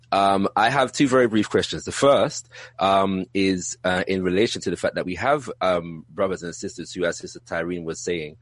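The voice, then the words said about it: British accent. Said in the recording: “if you couldn't tell from my accent, I'm from the UK”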